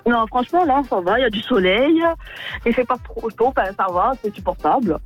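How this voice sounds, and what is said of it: Corsican French accent. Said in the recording (French): “j'adore l'accent. J'adore ... j'adore ce petit accent corse.”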